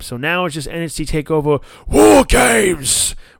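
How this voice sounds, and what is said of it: Imitates another person's voice. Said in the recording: “my best impression of William Regal”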